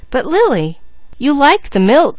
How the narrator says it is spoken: cried Mickey

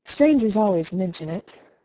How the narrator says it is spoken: sighed Elnora

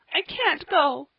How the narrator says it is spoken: she sobbed

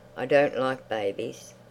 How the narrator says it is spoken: said to the boy coldly

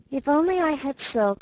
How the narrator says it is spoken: sighed Meg

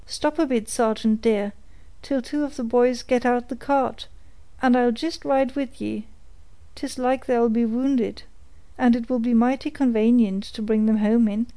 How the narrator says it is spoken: the voice of Betty was heard, exclaiming

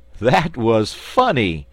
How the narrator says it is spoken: laughed Button-Bright

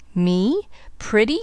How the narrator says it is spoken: scoffed the woman bitterly

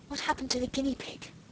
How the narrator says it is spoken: Alice whispered

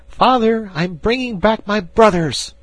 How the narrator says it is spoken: cried Ernest

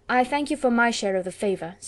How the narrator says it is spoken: said Elizabeth

